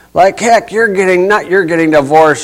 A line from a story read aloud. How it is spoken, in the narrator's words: she shouts